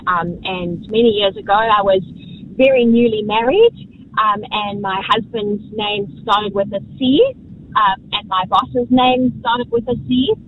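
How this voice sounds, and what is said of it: South African accent. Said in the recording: “as you can probably hear from my accent, I'm not from New Zealand. I'm from South Africa.”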